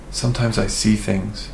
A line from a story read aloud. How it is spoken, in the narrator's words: Kiki whispered